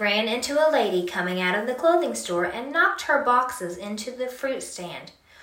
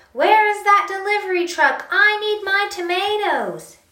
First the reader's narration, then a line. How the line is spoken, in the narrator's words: The grocery man yelled